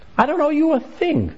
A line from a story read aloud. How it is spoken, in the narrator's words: the father exclaimed emphatically